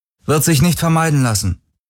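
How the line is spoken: Toneless reply. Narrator (German): gab sie tonlos zurück

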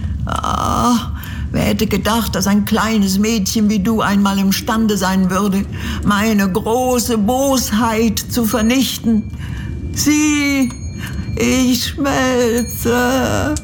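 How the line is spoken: Witch whimpering in agony. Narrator (German): wimmerte die Hexe unter Qualen

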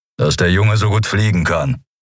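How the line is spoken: Growled. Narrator (German): knurrte Kero

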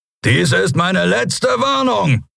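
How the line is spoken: Roared. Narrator (German): brüllte er

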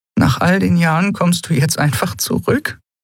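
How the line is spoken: Half-choked questioning voice. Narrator (German): fragte Elai mit halb erstickter Stimme

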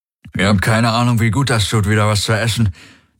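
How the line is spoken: Happy mumbling, mouth full. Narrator (German): nuschelte mit vollem Mund, glücklich wie ein Baby

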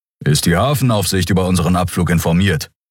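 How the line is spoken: Plain question. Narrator (German): fragte Keru

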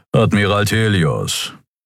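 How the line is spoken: Unimpressed growl. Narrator (German): knurrte der Skria namens Keru unbeeindruckt

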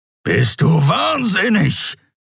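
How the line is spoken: Growling. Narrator (German): knurrte der Skria

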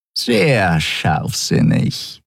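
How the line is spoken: Purr close to ear. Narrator (German): schnurrte Shi'ar dicht neben seinem Ohr

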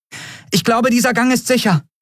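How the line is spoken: Called out. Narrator (German): rief sie

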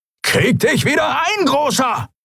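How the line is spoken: Shrieking. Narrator (German): kreischte Halbhorn

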